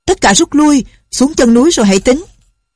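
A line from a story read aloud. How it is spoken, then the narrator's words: Shouting. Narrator (Vietnamese): Định Tĩnh Sư Thái la lên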